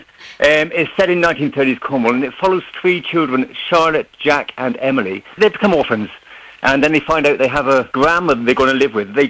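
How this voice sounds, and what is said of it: Southwest English accent. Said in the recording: “As you can tell from my accent, I'm actually from the southwest of England.”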